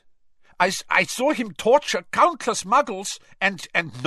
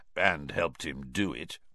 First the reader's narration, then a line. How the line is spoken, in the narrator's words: murmured Moody